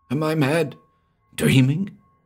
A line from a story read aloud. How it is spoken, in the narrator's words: he cried hoarsely